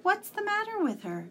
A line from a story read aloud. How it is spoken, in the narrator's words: Tom asked anxiously